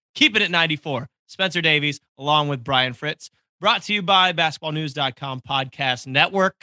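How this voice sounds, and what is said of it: Slightly hoarse, congested voice. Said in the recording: “I apologize if I'm a little hoarse today... I'm still getting my voice back... got sniffles, allergies”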